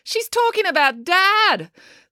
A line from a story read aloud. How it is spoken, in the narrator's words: exclaimed April